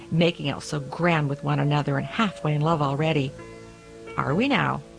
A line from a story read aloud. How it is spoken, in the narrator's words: the cook snorted